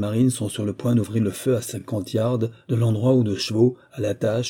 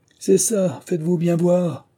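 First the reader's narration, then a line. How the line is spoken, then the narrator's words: Mocking voices shouting. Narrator (French): crie de la seconde ligne des voix gouailleuses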